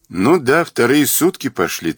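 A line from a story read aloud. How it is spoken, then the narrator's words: Cynical inner voice. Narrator (Russian): цинично хмыкнув в уме, сказал себе Мазур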